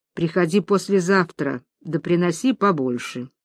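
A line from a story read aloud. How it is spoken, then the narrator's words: Quiet. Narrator (Russian): Захарыч тихо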